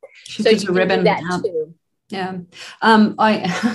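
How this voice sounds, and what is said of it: Usual voice. Nothing is said of it.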